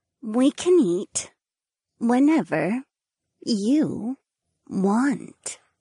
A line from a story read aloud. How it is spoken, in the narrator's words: Ariana purred